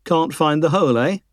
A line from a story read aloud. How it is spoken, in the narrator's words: mocked